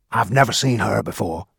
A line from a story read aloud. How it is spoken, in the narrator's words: Baggy whispered to me